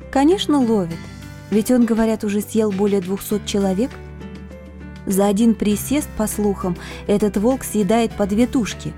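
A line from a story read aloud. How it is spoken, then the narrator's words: Calm explanation. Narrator (Russian): спокойно разъяснила мне девушка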